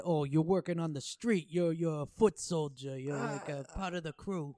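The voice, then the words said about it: Put-on tough-guy accent. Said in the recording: “I don't know why I did that accent”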